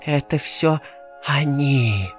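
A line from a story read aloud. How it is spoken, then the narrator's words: Terrified whisper. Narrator (Russian): прошептал голосом, полным ужаса и страха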